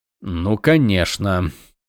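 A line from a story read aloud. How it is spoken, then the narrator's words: Muttered. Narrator (Russian): пробормотал Ронин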